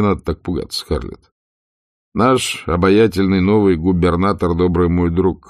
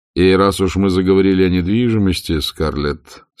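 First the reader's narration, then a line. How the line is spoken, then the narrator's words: Plain. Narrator (Russian): сказал он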